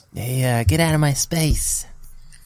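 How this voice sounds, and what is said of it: Poor Mike Tyson impression. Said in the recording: “in your Mike Tyson voice ... That's the worst impression”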